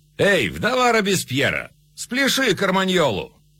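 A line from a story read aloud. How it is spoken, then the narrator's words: Mocking shouts. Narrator (Russian): нувориши измывались, голодным женщинам кричали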